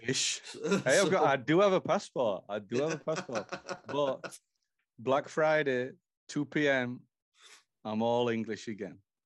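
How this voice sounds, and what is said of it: Texan American accent. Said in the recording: “It's not a Florida accent you're hearing there. That's pure Texan.”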